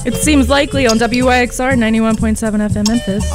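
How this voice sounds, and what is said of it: Polished radio announcer voice. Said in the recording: “I just have such a radio voice.”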